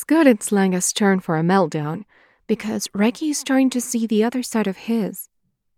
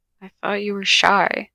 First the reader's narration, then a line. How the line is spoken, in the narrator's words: he murmurs